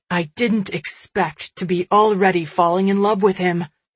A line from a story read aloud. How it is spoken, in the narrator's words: Smith exclaimed from the other room, the note of pride obvious to anyone listening